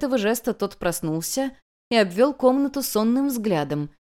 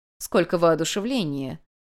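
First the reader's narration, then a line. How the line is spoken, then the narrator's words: Old woman snorting. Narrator (Russian): хмыкнула старуха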